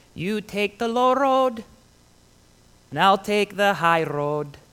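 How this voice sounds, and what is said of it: Sings in a bad Scottish accent. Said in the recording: “That was a horrible Scottish accent.”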